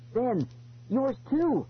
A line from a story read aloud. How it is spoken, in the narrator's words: I cried